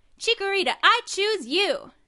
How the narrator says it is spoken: Tenma yelled

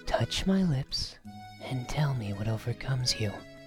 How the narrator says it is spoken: Raoul whispered into Eric's mouth

